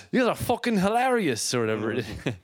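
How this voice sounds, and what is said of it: Convincing put-on Irish accent. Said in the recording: “That's a spot on Irish accent.”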